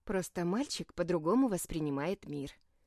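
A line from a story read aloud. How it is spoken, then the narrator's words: Calm grandmother's reply. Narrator (Russian): спокойно ответила бабушка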